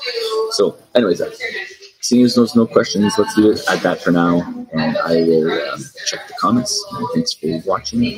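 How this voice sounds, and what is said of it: Quiet monotone delivery. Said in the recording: “I'm a little monotone on this one. That's because I'm in a cafe. I don't really want to yell”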